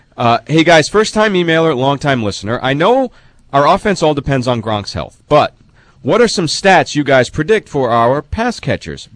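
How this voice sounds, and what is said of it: Congested, under-the-weather voice. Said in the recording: “I'm fighting a little bit of a cold, so I apologize for my voice.”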